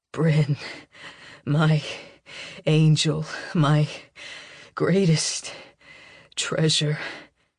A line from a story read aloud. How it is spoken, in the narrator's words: His voice is close to my ear when he says between pants